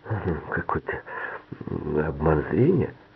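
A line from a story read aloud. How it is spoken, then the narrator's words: Muttering. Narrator (Russian): пробормотал Норман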